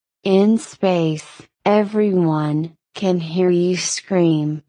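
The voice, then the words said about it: Dramatic movie trailer announcer voice. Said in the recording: “Movie trailer voice.”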